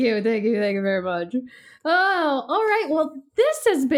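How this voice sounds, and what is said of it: Usual voice. Nothing is said of it.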